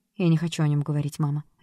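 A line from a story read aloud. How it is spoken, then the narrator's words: Sharp reply. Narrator (Russian): резко ответила Джесс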